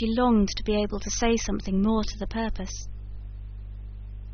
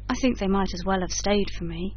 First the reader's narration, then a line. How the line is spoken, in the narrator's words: said he